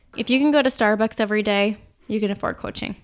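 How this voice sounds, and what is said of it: Minnesota accent slipping into speech. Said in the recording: “That Minnesota accent just slips right out sometimes.”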